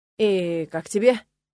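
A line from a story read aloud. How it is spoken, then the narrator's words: Slightly hoarse question. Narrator (Russian): немного севшим голосом спросил Нола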